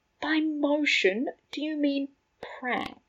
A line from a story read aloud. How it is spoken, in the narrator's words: Remus asked quietly